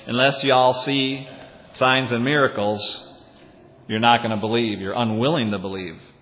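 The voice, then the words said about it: Put-on Southern US accent. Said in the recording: “If Jesus had a southern accent, he might have said something like”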